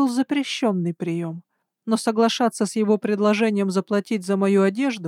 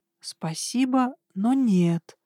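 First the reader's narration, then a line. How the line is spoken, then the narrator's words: Soft but firm. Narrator (Russian): ответила я мягко, но безапелляционно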